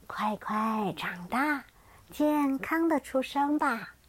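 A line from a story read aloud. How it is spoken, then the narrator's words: Gentle, tender mother. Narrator (Chinese): 慈母龙妈妈温柔的说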